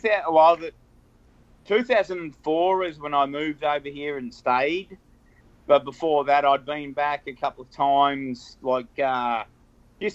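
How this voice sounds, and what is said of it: Australian accent. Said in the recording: “we're picking up on your accent. ... Aussie ... you're from Australia”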